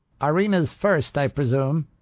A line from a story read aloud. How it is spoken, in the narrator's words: Carnage shouted above the echoes